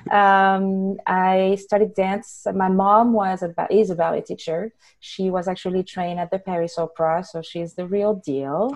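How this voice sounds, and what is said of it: French accent. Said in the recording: “with my accent, I am French, born and raised”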